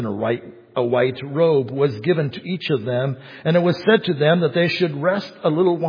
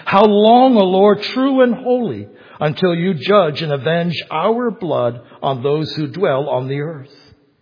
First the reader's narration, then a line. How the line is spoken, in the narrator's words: they cried out with a loud voice, saying